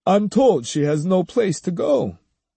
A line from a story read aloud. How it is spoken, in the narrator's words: His tone slightly plaintive, Hyogo said